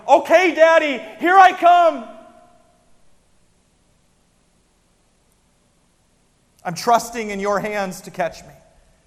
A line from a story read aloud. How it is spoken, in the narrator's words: yelling